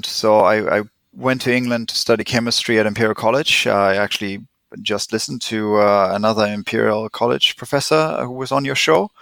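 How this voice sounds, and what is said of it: German accent. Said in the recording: “I'm German. Tried to hide my accent, didn't help ... everyone made fun of my German accent”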